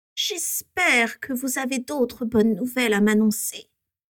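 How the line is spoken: Cruel voice. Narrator (French): dit Voldemort d'une voix cruelle

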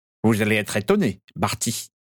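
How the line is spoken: Sneering. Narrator (French): ricana Piscus Crabbe

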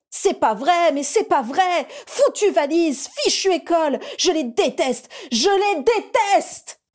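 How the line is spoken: Roared. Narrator (French): rugit-elle

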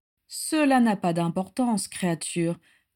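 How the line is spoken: Oily, smooth voice. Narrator (French): dit Voldemort d'une voix onctueuse

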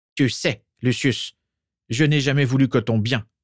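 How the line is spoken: Growl. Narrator (French): gronda-t-il

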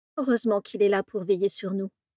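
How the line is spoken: Sighing. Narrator (French): soupira Vera

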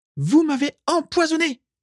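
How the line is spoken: Exclaimed. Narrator (French): s'écria Carla

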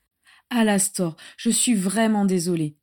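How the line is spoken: Sighing. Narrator (French): soupira Andromeda

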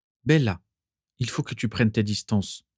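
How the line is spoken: Plain. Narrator (French): dit Régulus

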